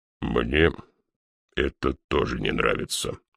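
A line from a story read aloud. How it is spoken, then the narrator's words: Grumbling. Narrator (Russian): проворчал он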